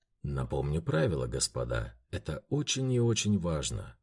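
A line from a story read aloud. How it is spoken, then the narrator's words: Declaration. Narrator (Russian): заявил камердинер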